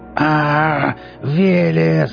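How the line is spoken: Growl. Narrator (Russian): зарычал он

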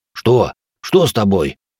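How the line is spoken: Frightened breathless. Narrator (Russian): испуганно выдохнул енот

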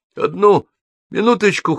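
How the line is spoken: Hoarse. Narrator (Russian): хриплю

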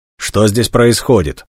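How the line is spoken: Stern question. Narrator (Russian): строго спросил один из вошедших

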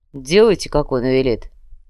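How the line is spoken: Commander grumbling. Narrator (Russian): проворчал командир

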